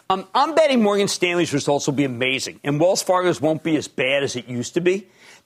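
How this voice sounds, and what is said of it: Philadelphia accent. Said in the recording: “I have a Philadelphia accent.”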